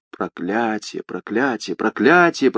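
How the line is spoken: Mutter. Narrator (Russian): пробормотал Бриго

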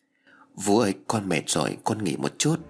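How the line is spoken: Soft tired girl's voice. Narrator (Vietnamese): con bé khẽ nói

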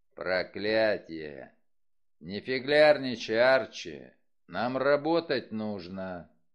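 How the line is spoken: Growling. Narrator (Russian): Вульф прорычал

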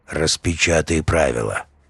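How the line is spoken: Gloomy man's voice. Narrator (Russian): Мужик мрачно произнес

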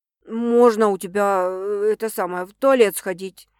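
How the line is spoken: Hesitant question. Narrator (Russian): Неуверенно спрашивает Макс

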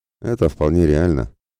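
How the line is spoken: Thoughtful. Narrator (Russian): кивнул задумчиво

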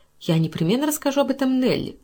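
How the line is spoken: Exclamation. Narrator (Russian): воскликнула она

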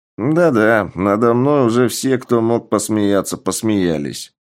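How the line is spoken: Grumbling. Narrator (Russian): проворчал парень

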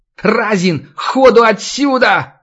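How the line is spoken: Yell. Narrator (Russian): заорал Альбинос

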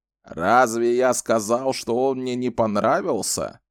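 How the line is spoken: Grumbling. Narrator (Russian): проворчал Зет

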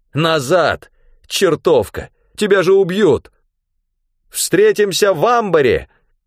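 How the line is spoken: Shouted. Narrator (Russian): Крикнула она

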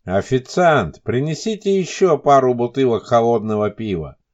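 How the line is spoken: Loud shout. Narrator (Russian): громко крикнул Елисеев

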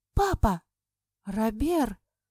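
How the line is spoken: Two voices exclaiming together. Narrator (Russian): в один голос воскликнули мы с Эльсаной

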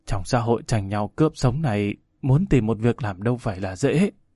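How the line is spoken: Dejected sigh. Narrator (Vietnamese): Người đó thở dài thiểu não nói

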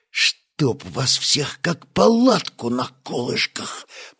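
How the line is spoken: Hissed. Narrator (Russian): прошипел Стас

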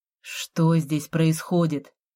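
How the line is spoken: Cat grumbling. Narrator (Russian): Кот пробурчал

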